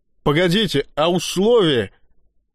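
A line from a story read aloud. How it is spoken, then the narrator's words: Exhausted, straining shout. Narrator (Russian): выкрикнул он из последних сил, борясь с цветастой воронкой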